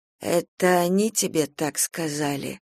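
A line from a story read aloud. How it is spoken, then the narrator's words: Hoarse question. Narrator (Russian): спросила она хрипло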